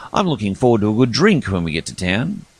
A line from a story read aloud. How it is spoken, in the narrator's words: he said cheerfully